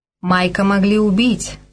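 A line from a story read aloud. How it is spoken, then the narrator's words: Plain. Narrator (Russian): сказал Грей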